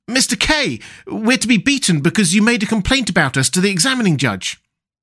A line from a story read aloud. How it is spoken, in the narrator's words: But the other two called out